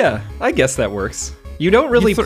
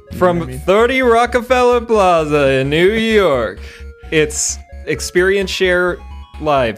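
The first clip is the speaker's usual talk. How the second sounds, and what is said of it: TV show announcer voice. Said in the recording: “doing the SNL voice, the SNL guy.”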